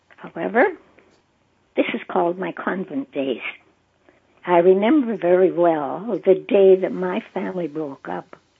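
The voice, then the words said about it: Husky voice. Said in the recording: “my voice is kind of husky this morning”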